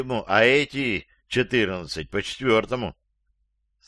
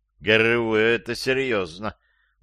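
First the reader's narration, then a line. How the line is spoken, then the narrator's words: Gloomy. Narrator (Russian): мрачно сказал один из присутствующих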